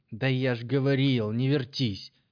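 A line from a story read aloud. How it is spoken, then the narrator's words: Barked. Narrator (Russian): рявкнул он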